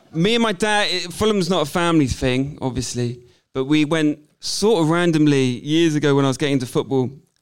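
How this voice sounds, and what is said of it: West Country English accent. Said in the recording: “a boy from Siren Sister in the West Country ... as you can tell from my accent. I'm a Wurzel, I'm not from round here.”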